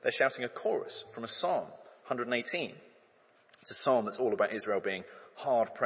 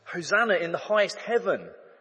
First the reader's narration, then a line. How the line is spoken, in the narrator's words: shout